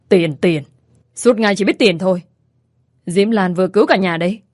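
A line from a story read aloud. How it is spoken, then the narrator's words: Angry hiss. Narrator (Vietnamese): Ông Khải Tâm rít lên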